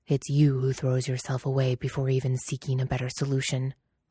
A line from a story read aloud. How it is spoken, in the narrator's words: Lan Wangji snapped